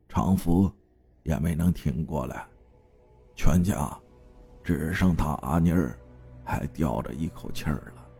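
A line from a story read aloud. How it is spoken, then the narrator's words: Sighing. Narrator (Chinese): 长根叔 叹息了一声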